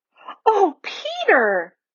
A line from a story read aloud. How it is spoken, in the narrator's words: exclaimed Lucy